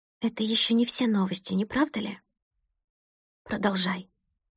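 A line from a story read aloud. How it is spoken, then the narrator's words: Muffled, unfamiliar voice. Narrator (Russian): произнесла она глухим, незнакомым голосом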